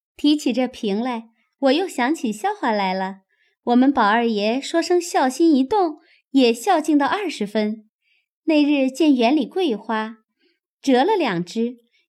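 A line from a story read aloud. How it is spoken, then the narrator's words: Laughing. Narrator (Chinese): 秋文笑道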